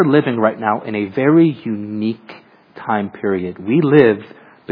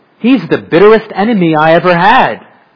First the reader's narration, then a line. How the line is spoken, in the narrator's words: exclaimed the old preacher